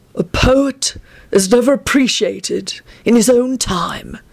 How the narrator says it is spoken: he murmured in a doleful voice

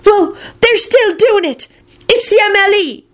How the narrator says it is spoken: Luna hollered out stubbornly

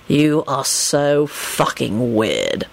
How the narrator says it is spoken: Lupin informed Sirius wearily

